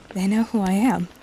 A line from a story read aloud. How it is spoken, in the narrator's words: Sherbert breathed, a huge smile stretching from ear to ear